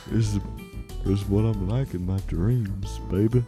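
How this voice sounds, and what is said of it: Smooth-talking put-on voice. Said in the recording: “You sound different. ... I'm like Shaft, baby. ... It's the most smooth talking guy.”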